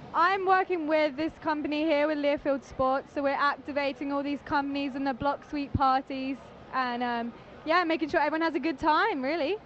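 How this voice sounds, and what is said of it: English accent. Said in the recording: “that does not sound like a Texan ... I'm from England, so across the pond”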